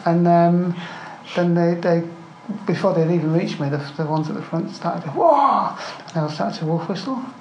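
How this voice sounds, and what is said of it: English accent. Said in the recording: “her English accent”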